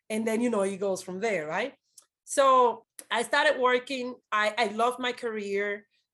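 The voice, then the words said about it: Dominican-accented English. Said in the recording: “I'm a Black Dominican person. And when I open my mouth, they're like, oh, you have an accent”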